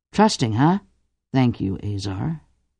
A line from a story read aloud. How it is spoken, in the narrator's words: Cordelia murmured wryly